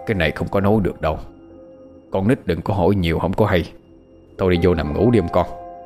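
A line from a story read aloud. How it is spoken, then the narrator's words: Very soft. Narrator (Vietnamese): bác rất khẽ nói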